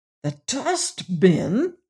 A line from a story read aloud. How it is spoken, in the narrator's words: gasped the inspector